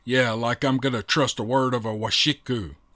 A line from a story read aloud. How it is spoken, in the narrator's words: growled Mika